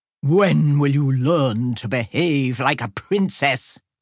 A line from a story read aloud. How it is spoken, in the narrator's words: he roared